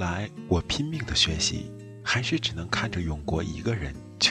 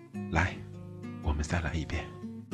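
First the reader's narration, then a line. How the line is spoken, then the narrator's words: Soft-spoken. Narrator (Chinese): 轻声地说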